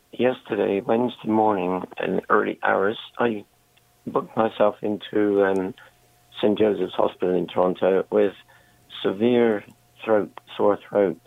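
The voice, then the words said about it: Hoarse, strained voice. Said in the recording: “Excuse my voice.”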